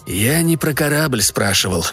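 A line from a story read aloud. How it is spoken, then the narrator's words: Quiet clarification. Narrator (Russian): также тихо уточнил Эванс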